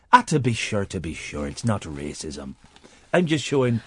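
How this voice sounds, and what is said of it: Put-on Irish accent. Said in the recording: “mocking the Irish accent”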